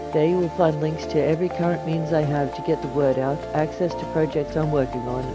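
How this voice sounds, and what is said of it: Semi-Australian accent. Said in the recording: “the melodious sound of my voice ... a semi-Australian accent”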